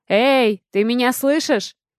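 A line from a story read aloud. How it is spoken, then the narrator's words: Shouting loudly through door. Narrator (Russian): пытаясь прокричать достаточно громко, чтобы она услышала меня через закрытую дверь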